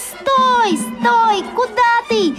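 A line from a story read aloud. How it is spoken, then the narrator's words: Shouting in unison. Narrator (Russian): закричали хором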